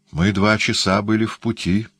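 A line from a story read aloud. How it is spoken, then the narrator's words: Uncertain voice. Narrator (Russian): неуверенным голосом сказал иезуит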